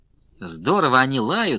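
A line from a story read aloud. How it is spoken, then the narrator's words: Laughing. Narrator (Russian): хохотал Сашка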